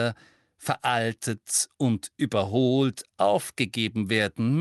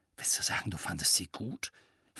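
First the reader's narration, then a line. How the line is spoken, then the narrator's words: Quiet, gloomy question. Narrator (German): fragte Ron leise und wandte sich mit trüben Augen Hermine zu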